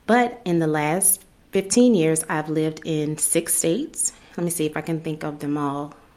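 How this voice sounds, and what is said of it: New Orleans accent. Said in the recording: “I'm originally from New Orleans, so that's where the accent comes from.”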